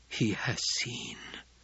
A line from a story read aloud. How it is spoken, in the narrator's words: Jessica whispered